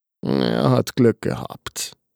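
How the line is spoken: Murmured. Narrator (German): murmelte der Arzt

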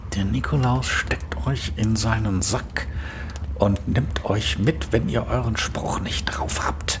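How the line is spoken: Spiteful whisper. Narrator (German): hatten sie hämisch geflüstert

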